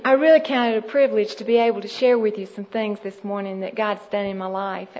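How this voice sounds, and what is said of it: Georgian Southern US accent. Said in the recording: “so I wouldn't come across sounding so much like a Georgian ... I spent most of my time there in Georgia”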